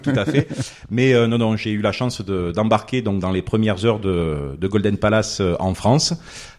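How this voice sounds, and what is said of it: Marseille French accent. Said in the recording (French): “originaire de Marseille. Bon, je pense que mon accent le trahit.”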